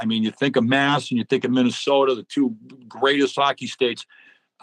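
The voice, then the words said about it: Boston accent. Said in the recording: “I'm a Boston guy, probably tell from the accent”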